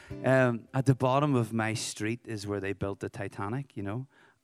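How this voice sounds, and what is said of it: Northern Irish accent. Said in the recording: “I'm from Belfast, Northern Ireland”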